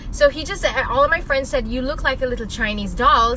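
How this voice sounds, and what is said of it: Subdued accent. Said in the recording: “The accent's awesome. ... this is actually very subdued.”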